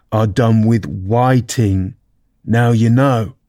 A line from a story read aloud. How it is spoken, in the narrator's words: the Gryphon went on in a deep voice